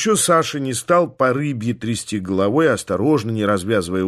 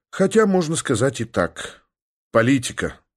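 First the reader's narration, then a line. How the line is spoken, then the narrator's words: Very gloomy. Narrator (Russian): совсем уж мрачно предположил я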